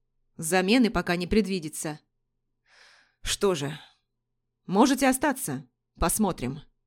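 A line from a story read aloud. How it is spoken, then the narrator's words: Gruff man. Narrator (Russian): грубо выдал мужчина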